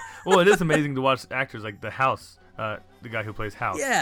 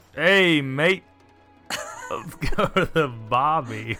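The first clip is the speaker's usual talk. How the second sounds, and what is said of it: Put-on Australian accent. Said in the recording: “give us Australian then”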